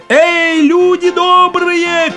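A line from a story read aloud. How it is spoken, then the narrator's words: Shouting while running. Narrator (Russian): крикнул он на бегу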